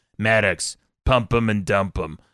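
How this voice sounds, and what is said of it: Imitated very deep voice. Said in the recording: “she has a really deep voice”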